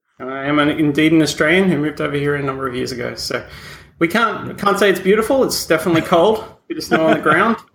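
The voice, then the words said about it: Slight Australian accent. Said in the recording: “I do detect a slight Australian accent there.”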